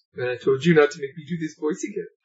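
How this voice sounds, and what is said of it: Creepy, slightly Italian character voice. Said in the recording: “he talks like this ... Sounds so creepy. And slightly Italian. ... where it's slightly creepy and slightly Italian.”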